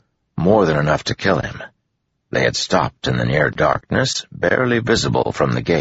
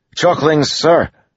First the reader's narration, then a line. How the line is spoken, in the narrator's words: one of the officers yelled